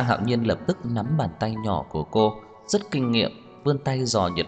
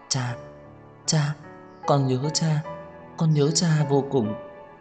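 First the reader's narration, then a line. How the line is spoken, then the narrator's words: Soft, trembling, choked sobbing. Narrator (Vietnamese): run rẩy nghẹn ngào gọi nhỏ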